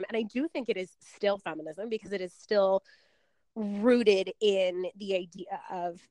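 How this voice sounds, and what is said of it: Strained, hoarse, fading voice. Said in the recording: “I'm losing my voice”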